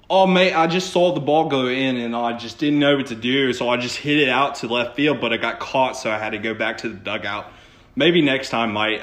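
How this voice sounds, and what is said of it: Poor put-on Australian accent. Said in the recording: “I feel like he'd get up there and be like... Australian... that was probably a terrible accent”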